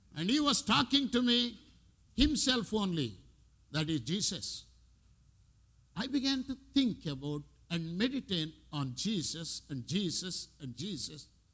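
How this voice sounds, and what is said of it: Strong non-native English accent. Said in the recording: “my my accent is very strong and I have limited language”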